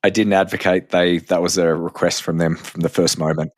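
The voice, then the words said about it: Australian accent. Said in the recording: “I have a strange, unique accent, which is appreciated in America. That's funny, in Australia, I'm just another person ... They're all the same as me ... Once you have the accent ... I love listening to it”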